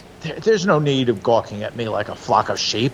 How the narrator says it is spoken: he said irritably

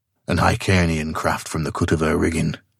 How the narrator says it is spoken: muttered Conan

